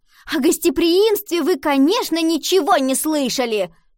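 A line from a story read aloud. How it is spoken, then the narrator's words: Shout. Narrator (Russian): крикнула она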